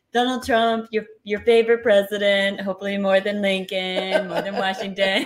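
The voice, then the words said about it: Donald Trump impression. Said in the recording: “Good impersonation. ... I've been practicing, actually. I'm aiming to, achieve SNL status.”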